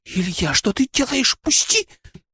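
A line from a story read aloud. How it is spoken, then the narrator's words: Squealing while struggling. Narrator (Russian): пищала она, пытаясь вырваться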